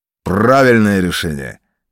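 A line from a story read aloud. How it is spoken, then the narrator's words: Loud barked command. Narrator (Russian): гаркнул господин ротмистр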